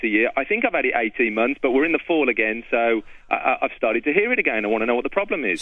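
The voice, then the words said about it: British Birmingham accent. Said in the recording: “You have a strange accent here. ... the UK originally. ... Birmingham.”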